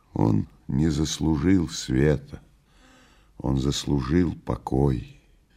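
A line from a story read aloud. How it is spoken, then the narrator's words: Sad voice. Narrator (Russian): печальным голосом проговорил Левий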